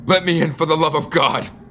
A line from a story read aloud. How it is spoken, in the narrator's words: I shouted as I got closer to the house